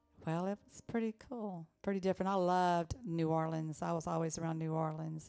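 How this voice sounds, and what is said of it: Louisiana accent. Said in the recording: “with that accent you're talking, you grew up in Louisiana.”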